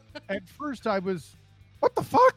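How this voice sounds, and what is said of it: Falsetto imitation of another person. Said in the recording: “was that a good EJ impression, EJ? ... That was pretty good. ... A little falsetto, too.”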